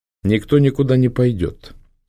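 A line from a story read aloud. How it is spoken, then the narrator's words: Calm. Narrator (Russian): спокойно сказала Алина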